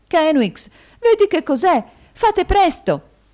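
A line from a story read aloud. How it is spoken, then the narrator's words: Exclamation. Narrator (Italian): esclamò la sorella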